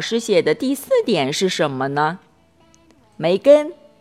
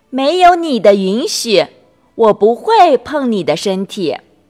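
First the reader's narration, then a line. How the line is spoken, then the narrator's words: Loud. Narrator (Chinese): 梅根大声的说道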